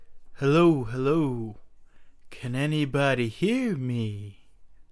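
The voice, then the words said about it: Imitates a rock singer's voice. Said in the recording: “That is my best impression of Pink Floyd.”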